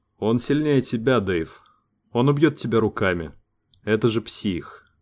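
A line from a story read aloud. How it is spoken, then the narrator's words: Quiet speech. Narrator (Russian): тихо сказал Лукас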